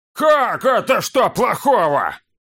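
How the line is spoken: Yelling from below. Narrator (Russian): завопил кто-то откуда-то снизу

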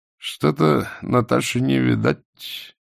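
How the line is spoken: Muttering. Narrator (Russian): пробормотал блондин

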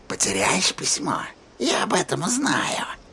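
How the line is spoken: Whisper. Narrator (Russian): прошептала Рия

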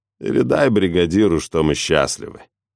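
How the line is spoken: Lazy drawl. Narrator (Russian): лениво цедит Крис

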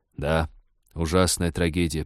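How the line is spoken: Mournful mutter. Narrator (Russian): пробормотал капитан, потупившись, словно в знак скорби

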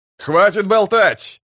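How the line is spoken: Male shout. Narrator (Russian): выкрикнул мужской голос

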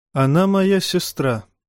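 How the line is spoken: Sighing. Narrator (Russian): вздохнул Тирион

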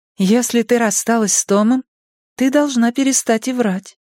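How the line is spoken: Even voice. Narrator (Russian): ровным голосом ответила Кей

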